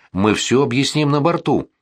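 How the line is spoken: Plain. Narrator (Russian): ответил Дон Морано

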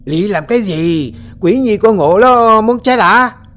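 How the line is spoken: Loud shouting. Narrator (Vietnamese): Gã thầy tàu hét lớn

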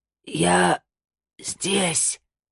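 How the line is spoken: Dying rasp. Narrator (Russian): прохрипел он, пытаясь в последний раз сделать вдох

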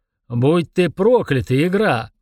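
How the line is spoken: Demon's roar. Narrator (Russian): взревел демон

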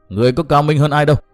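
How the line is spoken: Resentful loud shout. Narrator (Vietnamese): càng hậm hực thêm, quát lớn

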